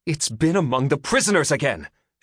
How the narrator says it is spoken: she cried

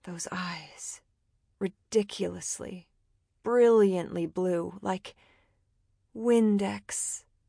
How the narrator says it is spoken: she murmured

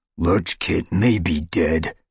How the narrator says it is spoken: snarled Dustpelt

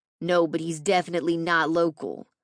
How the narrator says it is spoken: Gunner replied

